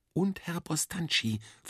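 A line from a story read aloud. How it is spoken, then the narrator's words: Whispered reply. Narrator (German): flüsterte ich zurück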